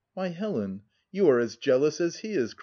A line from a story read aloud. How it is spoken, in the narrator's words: cried, laughing still more